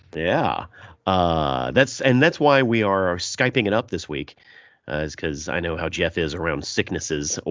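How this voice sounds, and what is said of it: Congested, deeper-sounding voice. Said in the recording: “I've got a little sinus drainage, so if my voice is extra sexy this episode.”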